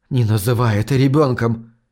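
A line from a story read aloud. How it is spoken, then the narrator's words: Hoarse, choking croak. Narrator (Russian): хриплю, давясь противно пахнущей бурдой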